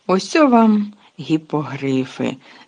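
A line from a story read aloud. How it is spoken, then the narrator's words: Joyful exclamation. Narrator (Ukrainian): радісно вигукнув Гегрід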